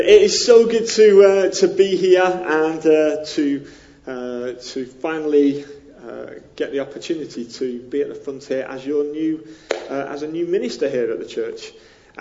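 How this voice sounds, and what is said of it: Northern English accent near Liverpool. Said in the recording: “my accent. I know it's a bit different ... It's an up north accent. It's near Liverpool.”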